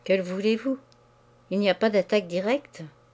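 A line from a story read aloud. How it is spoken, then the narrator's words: Stammering. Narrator (French): L'autre balbutia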